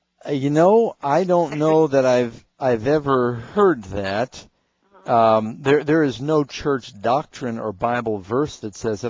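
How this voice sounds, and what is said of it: Slow, dragged-out delivery. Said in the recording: “you're hearing me drag my voice”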